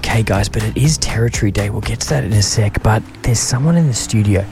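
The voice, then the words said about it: Whispering. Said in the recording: “we are whispering ... That's why we're whispering.”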